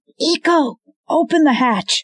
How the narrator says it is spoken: The man, screaming

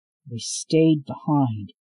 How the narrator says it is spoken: growled

